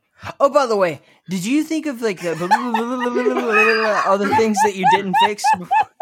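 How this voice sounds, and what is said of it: Imitates another person's voice. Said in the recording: “my ... impression”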